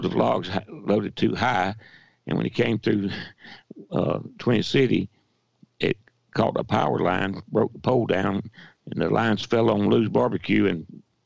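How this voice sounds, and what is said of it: Weak, hoarse, gravelly quiet voice. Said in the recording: “my voice is getting very weak and I'm hoarse ... I sound gravelly voiced and I don't have the volume I usually have”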